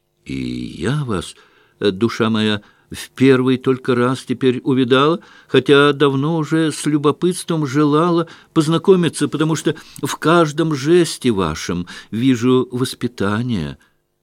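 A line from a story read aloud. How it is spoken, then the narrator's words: Enthusiastic woman's shout. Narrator (Russian): с увлечением прокричала Марья Тимофеевна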